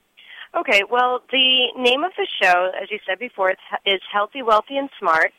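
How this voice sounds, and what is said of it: Smooth polished radio voice. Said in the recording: “you have that perfect radio voice”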